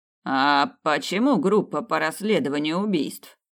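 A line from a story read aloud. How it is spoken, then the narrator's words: Plain. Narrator (Russian): спросил тип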